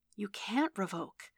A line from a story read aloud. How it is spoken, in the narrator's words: Elektra whispered back urgently